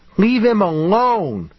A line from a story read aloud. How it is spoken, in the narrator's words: David's mother screamed